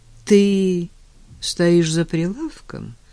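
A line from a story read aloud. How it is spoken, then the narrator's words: Sad question. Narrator (Russian): грустно спросил Женя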